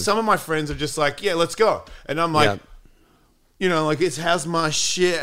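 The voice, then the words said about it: Australian accent. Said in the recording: “no one cares about my accent now. It's not like, oh my God, you're Australian?”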